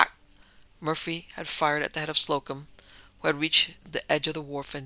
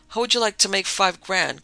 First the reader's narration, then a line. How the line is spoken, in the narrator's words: cried Beckett